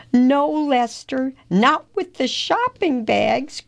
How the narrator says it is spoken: cried Leo

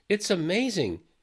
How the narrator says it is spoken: Jack said happily

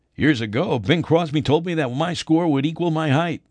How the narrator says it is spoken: Hope said with a chuckle

